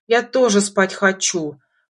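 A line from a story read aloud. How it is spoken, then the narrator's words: Snorting. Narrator (Russian): фыркнула Лика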